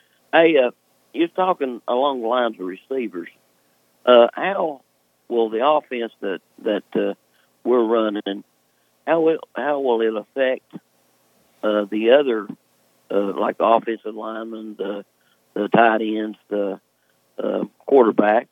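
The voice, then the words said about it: Voice sounds different, sick with cold. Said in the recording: “A little bit of cold this morning ... I couldn't tell if I was imagining things or you sounded different ... I've got a cold”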